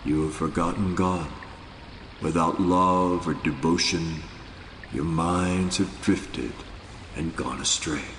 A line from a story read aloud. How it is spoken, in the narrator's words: With chilling seriousness, Nanak said in a quietly penetrating voice